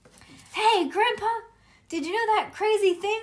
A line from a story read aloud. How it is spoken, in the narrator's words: I hollered